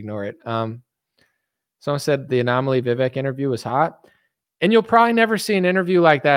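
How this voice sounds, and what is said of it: Usual voice. Nothing is said of it.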